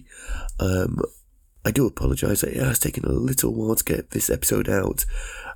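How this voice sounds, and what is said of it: Voice sounds unwell. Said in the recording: “You can probably hear from my voice, I am a little bit poorly.”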